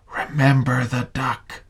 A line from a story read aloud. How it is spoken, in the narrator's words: she whispered to him